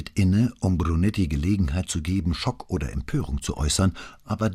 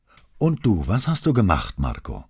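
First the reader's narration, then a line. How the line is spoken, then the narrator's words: Distracted, preoccupied question. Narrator (German): fragte er, immer noch abgelenkt von der Sorge um sein Mittagessen, das womöglich inzwischen kalt wurde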